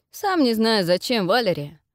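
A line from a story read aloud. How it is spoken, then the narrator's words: Short laugh. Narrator (Russian): хохотнул мой помощник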